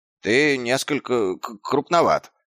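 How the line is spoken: Stammering. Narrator (Russian): запинаясь, произнес он

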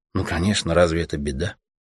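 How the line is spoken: Quiet, steely. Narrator (Russian): тихо и железно ответила ему Аня

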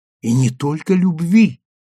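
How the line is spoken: Exclamation. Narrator (Russian): воскликнула Сима

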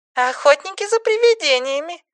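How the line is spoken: Playful squeak. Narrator (Russian): игриво пропищала Анья

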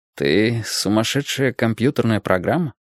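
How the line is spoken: Uncertain question. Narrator (Russian): неуверенно спросил Ким

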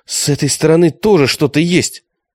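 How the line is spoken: Shout. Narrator (Russian): Алиса крикнула

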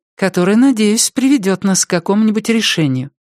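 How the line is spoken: Timid. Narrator (Russian): робко проговорила она

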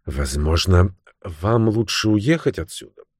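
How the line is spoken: Hesitant, quiet, after pause. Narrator (Russian): После минутной паузы нерешительно и тихо сказала Мэри

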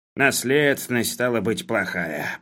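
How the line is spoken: Grumbled. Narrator (Russian): проворчал Хлебоводов

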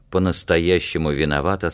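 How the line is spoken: Plain. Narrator (Russian): сказал Алька

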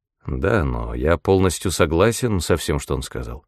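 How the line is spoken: Calm speech. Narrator (Russian): спокойно произнес Питер

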